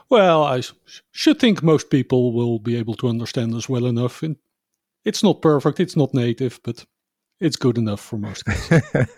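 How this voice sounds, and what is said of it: Dutch accent in English. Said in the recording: “As a fellow Dutchman, people might hear our accents here.”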